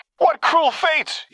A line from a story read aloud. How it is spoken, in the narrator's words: he cried